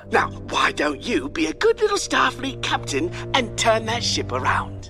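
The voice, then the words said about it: Accent like a sci-fi villain. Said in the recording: “looked very like Imperial bad guy from Star Wars ... Right on down to the accent”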